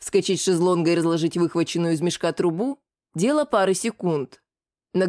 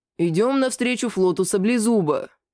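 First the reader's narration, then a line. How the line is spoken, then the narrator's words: Doomed deep bass. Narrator (Russian): обреченно пробасил Лигнурф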